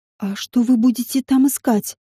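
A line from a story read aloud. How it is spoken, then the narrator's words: Enchanted whisper. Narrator (Russian): прошептала я, зачарованная зрелищем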